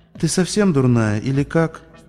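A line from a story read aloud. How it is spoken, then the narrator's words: Tired question. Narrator (Russian): устало спросила Скуталу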